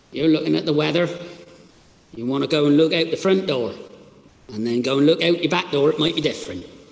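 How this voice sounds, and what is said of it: Attempted Cornish accent, sounding Dutch. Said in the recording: “my Cornish accent ... Sounding quite Dutch, I think.”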